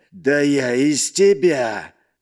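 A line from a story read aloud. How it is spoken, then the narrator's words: Loud growl. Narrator (Russian): Громко рыкнул громила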